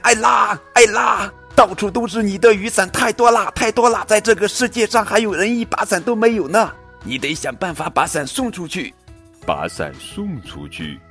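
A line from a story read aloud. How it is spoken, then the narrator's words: Loud shouting. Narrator (Chinese): 妈妈大喊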